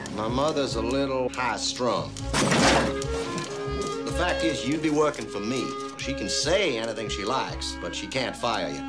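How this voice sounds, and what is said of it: Unconvincing put-on Southern American accent. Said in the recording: “southern accent was really not that great ... he's Canadian, and so he was stretching”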